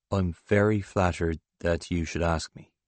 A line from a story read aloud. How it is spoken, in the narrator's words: he says slowly